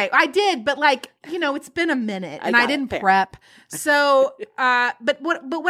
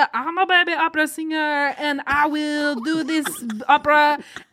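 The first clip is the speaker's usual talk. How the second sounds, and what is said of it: Attempted Austrian accent, sounds French. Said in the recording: “it's sounding more French to me ... I'm not trained in Austrian ... Not an Austrian accent”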